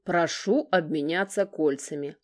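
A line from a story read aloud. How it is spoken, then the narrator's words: Loud solemn growl. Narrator (Russian): очень громко и торжественно прорычал Гор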